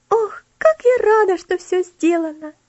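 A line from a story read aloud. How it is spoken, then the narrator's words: Joyful exclamation. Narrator (Russian): Элси радостно воскликнула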